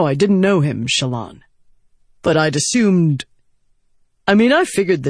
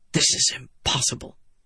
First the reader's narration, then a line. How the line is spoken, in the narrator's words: he muttered